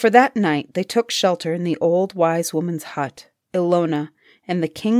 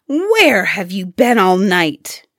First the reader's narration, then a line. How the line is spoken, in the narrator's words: she demanded angrily